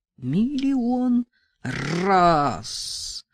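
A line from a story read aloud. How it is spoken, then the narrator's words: Through gritted teeth. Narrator (Russian): проговорила сквозь зубы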